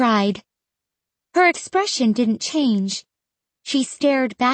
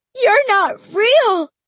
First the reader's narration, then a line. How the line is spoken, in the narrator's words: I cried